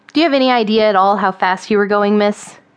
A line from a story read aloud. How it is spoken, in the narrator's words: His voice flat and firm boomed in the silence of the night